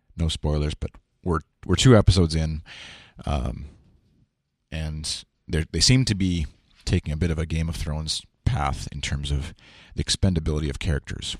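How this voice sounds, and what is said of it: Slightly rough, hoarse voice. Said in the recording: “my voice sounds a little rough”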